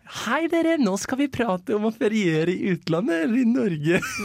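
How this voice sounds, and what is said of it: Imitates another person's dialect. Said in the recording (Norwegian): “skal jeg prøve det på nytt med din dialekt? Med min. Med din? Den klarer du.”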